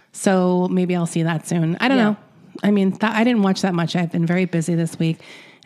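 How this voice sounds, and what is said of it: Stuffy, allergy-affected voice. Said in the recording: “as you probably hear from my voice, I've been having allergy attacks.”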